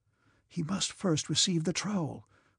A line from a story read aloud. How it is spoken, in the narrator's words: whispered one of the brothers